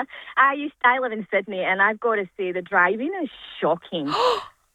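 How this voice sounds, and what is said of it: Scottish accent. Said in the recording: “I love Scottish accents.”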